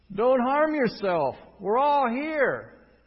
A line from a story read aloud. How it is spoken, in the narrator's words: Paul shouted